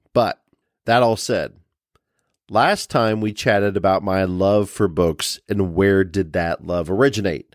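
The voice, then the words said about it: Nasal, congested voice. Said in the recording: “my voice is a little nasally still struggling with that cold”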